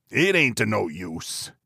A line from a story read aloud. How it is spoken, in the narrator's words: he growled